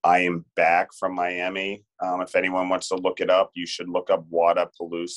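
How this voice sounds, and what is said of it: Hoarse, worn-out voice. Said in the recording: “lost my voice”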